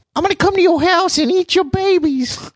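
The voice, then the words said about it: Squeaky cartoonish imitation of another person. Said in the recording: “worst Mike Tyson impression ... That was like if Mickey Mouse and Pee Wee Herman had a kid. That's what the voice would be.”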